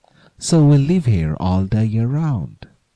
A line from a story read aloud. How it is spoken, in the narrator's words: they cried